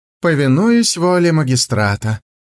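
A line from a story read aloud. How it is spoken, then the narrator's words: Sighing. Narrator (Russian): вздохнул Хумэнзы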